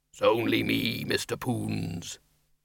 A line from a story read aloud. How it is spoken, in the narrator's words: A deep, rumbling, but very diffident voice said